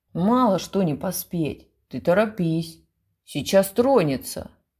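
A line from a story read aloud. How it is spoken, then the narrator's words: Grumbling behind a door. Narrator (Russian): проворчал кто-то за дверью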